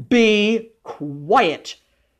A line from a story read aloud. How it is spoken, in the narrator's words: thundered his father